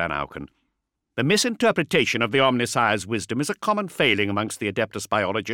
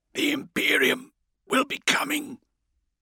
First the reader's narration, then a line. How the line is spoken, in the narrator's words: he hissed through the metallic fingers covering his mouth